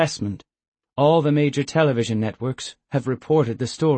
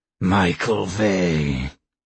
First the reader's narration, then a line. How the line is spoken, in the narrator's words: Skema growled